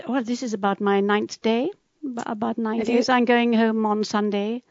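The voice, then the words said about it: British London accent. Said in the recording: “You sound like the Queen ... a sort of a London accent ... I suppose I do have a London accent”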